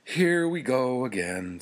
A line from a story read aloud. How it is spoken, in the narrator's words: sighed